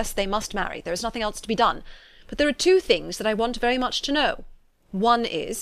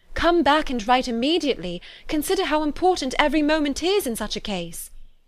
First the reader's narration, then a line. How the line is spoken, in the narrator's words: she cried